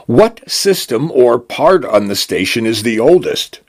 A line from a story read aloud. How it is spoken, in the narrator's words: he asked